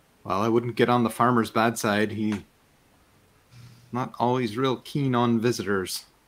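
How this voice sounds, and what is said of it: Put-on accent for a character. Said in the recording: “this accent because it's amazing”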